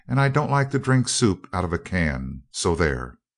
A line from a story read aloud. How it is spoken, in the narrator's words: exclaimed Dorothy in dismay